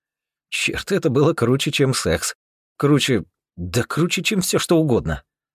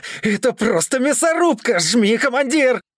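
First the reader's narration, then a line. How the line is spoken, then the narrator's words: Excited yelling. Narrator (Russian): Возбужденно орал Макс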